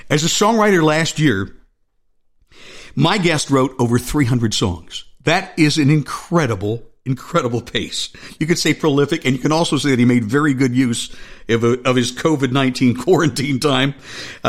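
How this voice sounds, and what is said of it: Smooth FM radio announcer voice. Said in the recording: “radio voice ... that's the FM voice that I grew up listening to with FM radio”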